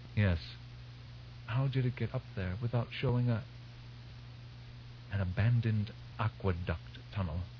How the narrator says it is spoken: Burzmali whispered

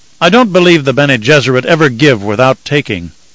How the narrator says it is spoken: Leto snapped in sudden fury

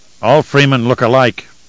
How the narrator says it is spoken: Jodam growled

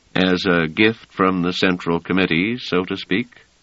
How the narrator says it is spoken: said Treviz dryly

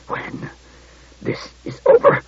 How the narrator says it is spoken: he began, but choked into inarticulacy

